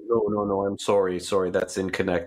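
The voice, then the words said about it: Disappointed Alex Trebek impression. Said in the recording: “do that Alex Trebek thing where he looks at the person and goes, no, I'm sorry ... do the disappointing voice”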